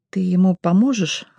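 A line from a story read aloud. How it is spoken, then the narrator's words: Timid question. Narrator (Russian): робко спросила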